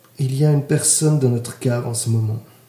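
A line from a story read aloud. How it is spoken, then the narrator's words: Calm statement. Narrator (French): déclara calmement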